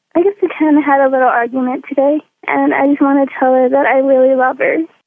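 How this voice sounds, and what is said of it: Sad-sounding voice. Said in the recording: “do you sound sad?”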